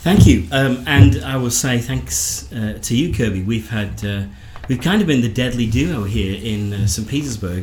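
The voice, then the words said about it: Northern English accent. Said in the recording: “I'm an Englishman, as you can probably tell from this fabulous accent of mine ... born in the north of England”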